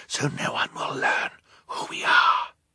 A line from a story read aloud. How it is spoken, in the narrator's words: Violet whispered to Klaus